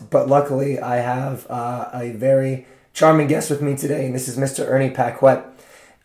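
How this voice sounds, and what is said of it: Failing, cutting-out voice. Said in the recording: “My voice is going to cut in and out”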